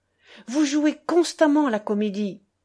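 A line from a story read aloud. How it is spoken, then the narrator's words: Old man shouting. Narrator (French): Mon aïeul criait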